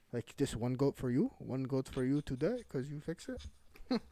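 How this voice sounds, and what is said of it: Poor put-on Eastern European accent. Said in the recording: “that was a horrible accent I just did. I was trying to do like I think it's in Eastern Europe.”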